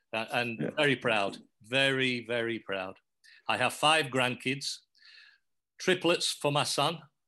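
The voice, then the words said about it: English accent. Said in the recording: “the only thing English about me now is my accent.”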